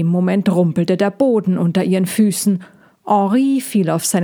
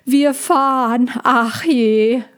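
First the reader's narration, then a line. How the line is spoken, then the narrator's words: Call. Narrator (German): rief Cassandra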